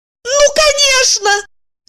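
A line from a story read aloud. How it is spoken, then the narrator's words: Shouting. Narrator (Russian): закричала она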